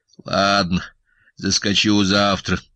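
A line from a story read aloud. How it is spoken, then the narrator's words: Grumbling. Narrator (Russian): проворчал Сашка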